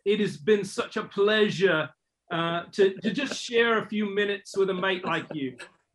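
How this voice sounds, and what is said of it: Attempted Australian accent, sounds English. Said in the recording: “Definitely more English than Aussie, that's all. ... He tried to go the Aussie thing with saying mate, but more English, the accent.”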